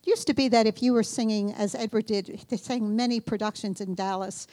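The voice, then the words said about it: New York accent. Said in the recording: “we're from New York, and we... as you can probably tell from my accent.”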